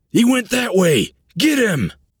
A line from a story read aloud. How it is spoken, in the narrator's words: In panic, shouted